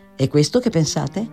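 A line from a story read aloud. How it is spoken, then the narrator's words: Plain. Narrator (Italian): disse Edmund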